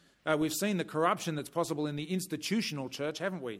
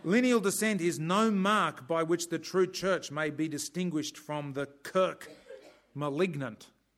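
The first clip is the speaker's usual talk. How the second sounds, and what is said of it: Put-on Scottish accent. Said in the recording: “I'll try and get the Scottish accent ... that's just crying out for a Scottish accent”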